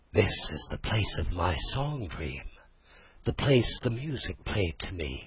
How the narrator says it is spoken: whispered Rat, as if in a trance

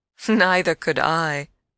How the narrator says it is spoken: I laughed again

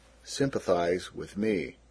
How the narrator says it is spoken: gloomily

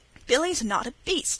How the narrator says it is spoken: said Wesley hotly

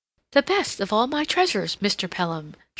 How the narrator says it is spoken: she exclaimed

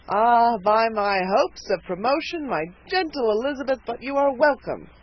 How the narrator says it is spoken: cried the trooper

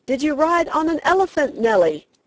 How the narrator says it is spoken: a man on the limits of it yelled

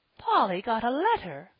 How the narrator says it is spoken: cried Mrs

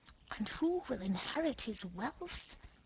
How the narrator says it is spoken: he added in a whisper

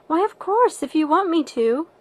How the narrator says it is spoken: assented Anne cheerfully

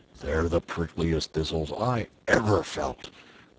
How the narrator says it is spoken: grumbled the lion

